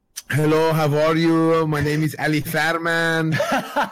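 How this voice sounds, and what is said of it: Put-on Persian accent. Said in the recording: “I spoke with like a Persian accent”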